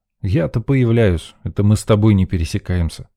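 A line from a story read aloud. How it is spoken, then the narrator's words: Smirking grunt. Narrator (Russian): хмыкнул я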